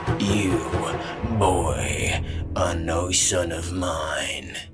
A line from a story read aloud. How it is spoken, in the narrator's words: hissed